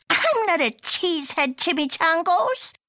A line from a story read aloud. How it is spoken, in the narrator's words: chuckled the gatito